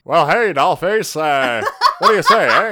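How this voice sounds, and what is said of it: 1930s Boston gangster accent. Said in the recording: “I'm gonna have to try to do some 40s accent ... 1930s gangster in Boston is, I think, what that was.”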